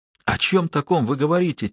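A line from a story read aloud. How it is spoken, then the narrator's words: Quiet question. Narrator (Russian): тихо спросил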